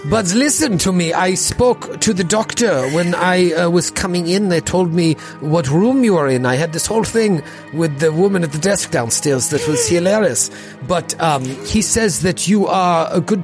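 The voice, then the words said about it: Inconsistent French-German put-on accent. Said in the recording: “My accent is all over the place. It is sometimes French, sometimes ... German.”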